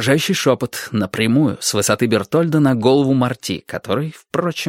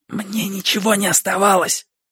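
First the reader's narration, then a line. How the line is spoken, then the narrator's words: Whispering. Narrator (Russian): зашептал Бертольд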